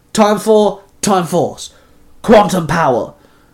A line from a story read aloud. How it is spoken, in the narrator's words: Wes and Eric both called out